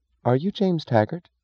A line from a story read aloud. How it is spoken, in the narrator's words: she asked